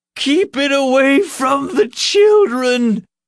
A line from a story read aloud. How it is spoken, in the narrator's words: the old woman cried